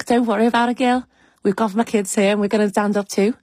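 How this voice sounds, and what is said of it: Good put-on Liverpool accent. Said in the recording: “that was a very good Liverpool accent”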